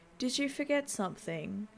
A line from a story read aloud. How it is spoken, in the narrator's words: asks in a monotone voice